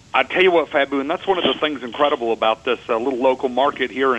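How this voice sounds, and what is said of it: Slight Texan accent. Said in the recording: “I'm actually from Texas. I have a little bit of an accent.”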